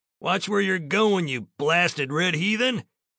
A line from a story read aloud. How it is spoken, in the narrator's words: the man yelled at the tall, buckskin-clad youngster